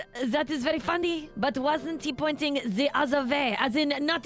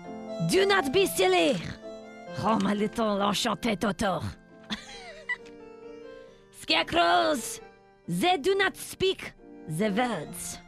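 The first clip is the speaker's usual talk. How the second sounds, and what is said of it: Put-on French accent. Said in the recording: “we are not speaking in French ... French accent”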